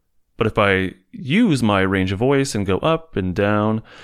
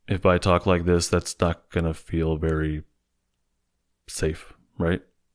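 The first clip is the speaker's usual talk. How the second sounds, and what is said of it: Flat, monotone voice. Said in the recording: “if we have a flat tone of voice ... When I talk in a flat voice ... I lose my prosody”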